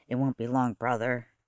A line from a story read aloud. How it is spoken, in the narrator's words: said softly